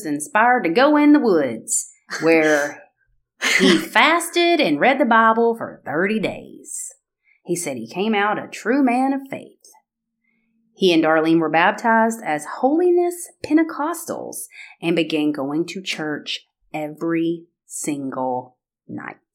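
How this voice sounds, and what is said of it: Thickening Alabama Southern accent. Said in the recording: “I love the accent. ... Thickening ... my Alabama. ... As it's coming out.”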